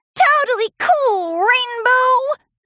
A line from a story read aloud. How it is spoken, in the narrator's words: squeaked Scootaloo